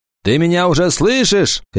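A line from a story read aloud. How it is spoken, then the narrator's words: Shouting. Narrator (Russian): крикнул Кикаха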